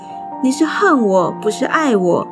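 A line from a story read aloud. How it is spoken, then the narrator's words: Weeping. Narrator (Chinese): 参孙的妻在丈夫面前啼哭说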